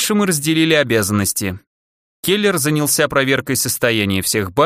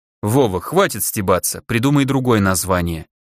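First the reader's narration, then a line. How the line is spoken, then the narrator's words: Stern, threatening. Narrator (Russian): грозно сказал Келлер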